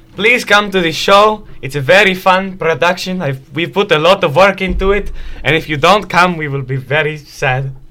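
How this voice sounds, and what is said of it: Speaks in a put-on character accent. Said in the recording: “Anything, you want to offer in your accent? ... In my accent?”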